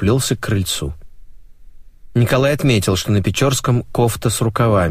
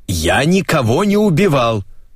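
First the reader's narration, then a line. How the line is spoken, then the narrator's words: Shouted through a door. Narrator (Russian): прокричал через дверь Печорский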